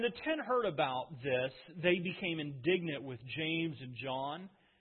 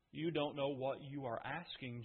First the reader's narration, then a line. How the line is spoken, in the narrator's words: Jesus said